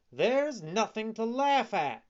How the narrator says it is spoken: cried Pinocchio angrily

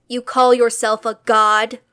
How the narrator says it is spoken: Andromeda shouted

